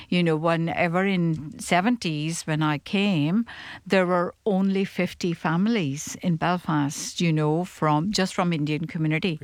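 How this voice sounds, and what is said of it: Indian accent with slight Belfast tinge. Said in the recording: “my accent is a little bit different, maybe a little bit Belfast, but, you know, it is still different”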